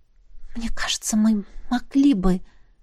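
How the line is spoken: Muttered. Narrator (Russian): пробормотала Тесса

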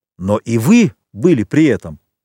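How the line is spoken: Abbot's sudden exclamation. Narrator (Russian): воскликнул вдруг аббат

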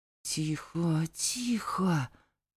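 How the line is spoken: Whisper. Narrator (Russian): зашептал

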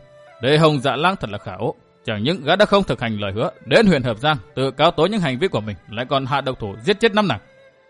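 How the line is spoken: Muttering. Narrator (Vietnamese): Gã lẩm bẩm

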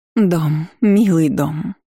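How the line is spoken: Cooed. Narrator (Russian): проворковала Тереза

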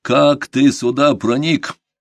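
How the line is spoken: Menacing growl. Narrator (Russian): грозно нагнув голову, зарычал

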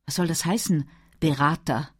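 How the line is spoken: Sighing. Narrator (German): Clive seufzte

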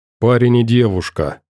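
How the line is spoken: Gloomy, delayed reply. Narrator (Russian): мрачно ответил, немного погодя

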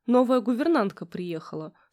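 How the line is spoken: Dry. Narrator (Russian): сухо ответил Кирилл

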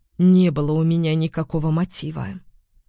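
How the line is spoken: Strangely flat, colorless voice. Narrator (Russian): отозвалась Осокина странно бесцветным голосом

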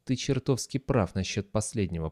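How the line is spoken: Muttering. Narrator (Russian): пробормотал он

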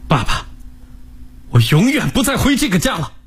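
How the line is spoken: Loud. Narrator (Chinese): 大声地说道

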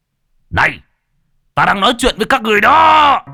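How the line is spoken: Furious humiliated roar. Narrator (Vietnamese): Mục Hạo tức giận gầm thét, hắn chưa bao giờ bị sỉ nhục như vậy

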